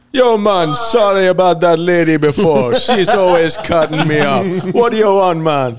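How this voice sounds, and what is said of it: Put-on Jamaican accent. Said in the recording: “your Jamaican man”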